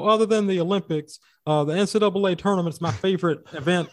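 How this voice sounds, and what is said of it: Charles Barkley impression. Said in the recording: “You did pretty well with that impression.”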